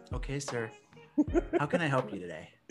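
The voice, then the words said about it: Polite customer service voice. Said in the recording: “you need to speak to me with your customer service voice.”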